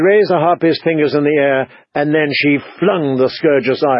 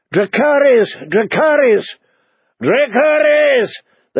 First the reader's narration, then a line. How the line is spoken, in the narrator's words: they shouted back